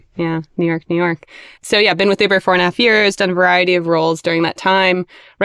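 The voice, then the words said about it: American accent. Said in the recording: “I'm American, as you can probably tell by my accent”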